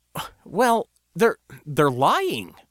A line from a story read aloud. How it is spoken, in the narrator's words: I stuttered at last